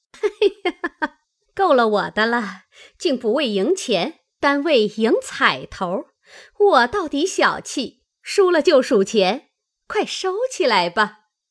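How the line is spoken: Laughing. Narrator (Chinese): 向众人笑道

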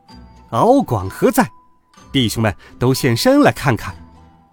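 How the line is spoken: Stern loud shout. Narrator (Chinese): 悟空仰面朝空，厉声高叫

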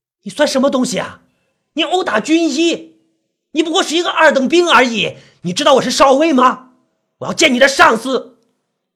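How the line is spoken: Furious roaring. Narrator (Chinese): 被打飞的医生立即像疯狗一样站了起来，对着那个士兵狂吼起来

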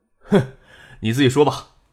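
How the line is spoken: Laughing. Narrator (Chinese): 叶剑兵哈哈一笑

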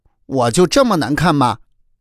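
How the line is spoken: Loud shouting. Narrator (Chinese): 贝贝大声喊叫起来

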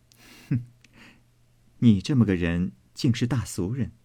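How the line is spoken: Cold sneer. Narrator (Chinese): 妙玉冷笑道

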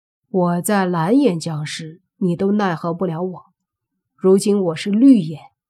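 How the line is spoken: Calm faint smile. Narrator (Chinese): 莫凡淡淡的笑了一下，说道

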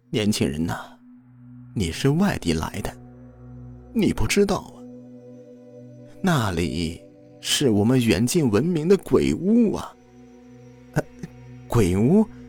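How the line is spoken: Sighing old man. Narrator (Chinese): 老人叹了一口气，说道

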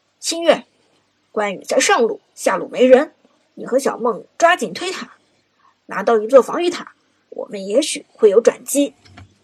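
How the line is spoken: Through gritted teeth. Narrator (Chinese): 朱浩咬牙说道

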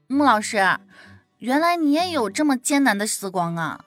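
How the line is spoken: Laughing. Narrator (Chinese): 吕毅笑着说道

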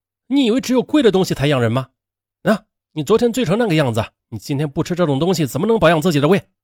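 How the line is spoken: Plain. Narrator (Chinese): 说完

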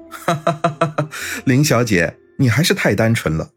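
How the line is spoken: Laughing, then speaking. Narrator (Chinese): 安然哈哈大笑起来，半晌才道

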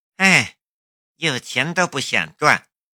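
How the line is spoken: Sighing. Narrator (Chinese): 石静秋叹了一口气

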